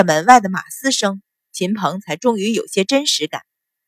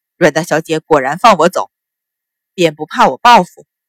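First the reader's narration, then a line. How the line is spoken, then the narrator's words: Scoffing, cool. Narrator (Chinese): 阮云欢嗤笑一声，淡道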